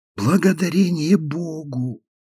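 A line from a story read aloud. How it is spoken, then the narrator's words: Clearer voice. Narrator (Russian): как бы в согласии с шепотом Фиби послышался яснее голос Гефсибы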